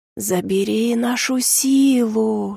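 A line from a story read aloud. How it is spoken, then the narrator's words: Whispering voices. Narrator (Russian): шепнули голоса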